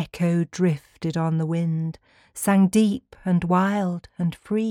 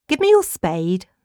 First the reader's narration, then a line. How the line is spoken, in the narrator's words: the father cried